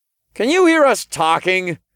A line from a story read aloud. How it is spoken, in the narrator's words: I shouted at the door, somewhat annoyed